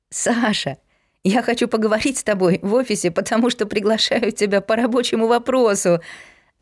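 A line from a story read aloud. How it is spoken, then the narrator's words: Laughing. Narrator (Russian): засмеялась Надка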